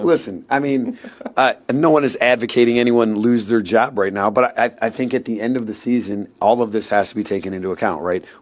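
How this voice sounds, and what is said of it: Raspy voice. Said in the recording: “You can still hear my raspy voice”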